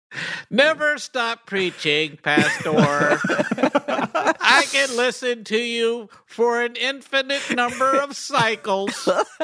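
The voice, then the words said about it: Robot voice. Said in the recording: “bust out robot voice.”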